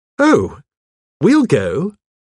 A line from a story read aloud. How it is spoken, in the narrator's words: said cheerfully